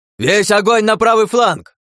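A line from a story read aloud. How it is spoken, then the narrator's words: Deafening yell. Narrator (Russian): Заорал я так, что у самого едва не заложило уши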